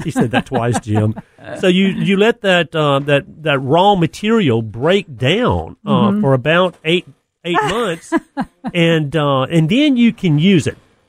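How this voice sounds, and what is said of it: Strong Southern US accent. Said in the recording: “It's just that southern talk ... you have such a southern accent”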